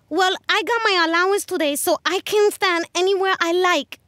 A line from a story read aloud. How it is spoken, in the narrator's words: Josie shouted, trembling in her shoes